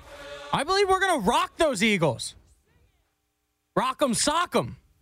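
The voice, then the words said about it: Excited, pumped-up voice. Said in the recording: “If you can hear it in my voice, ... I am so excited ... I am pumped.”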